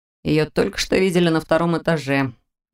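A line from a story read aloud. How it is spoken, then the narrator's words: Displeased grumble. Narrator (Russian): недовольно проворчал рядом Берт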